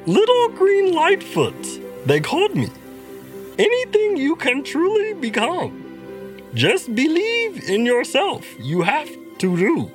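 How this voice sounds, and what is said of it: Yoda-style character voice. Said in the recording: “an excellent Yoda impersonation”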